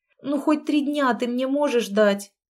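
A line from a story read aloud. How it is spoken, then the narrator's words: Pleading. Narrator (Russian): взмолилась я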